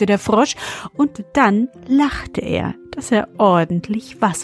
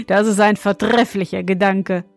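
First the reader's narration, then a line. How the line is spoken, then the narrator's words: Laughing young man. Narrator (German): meinte der junge König und lachte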